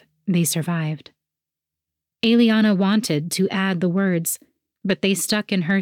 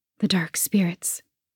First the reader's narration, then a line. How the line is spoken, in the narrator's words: she whispered